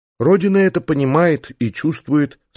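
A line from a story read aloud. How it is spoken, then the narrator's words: Calm. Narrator (Russian): спокойно кивнула Исса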